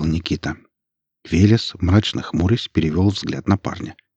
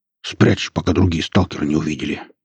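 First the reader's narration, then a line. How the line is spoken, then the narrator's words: Growled, suddenly unfriendly. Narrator (Russian): рыкнул враз утративший благодушное свое настроение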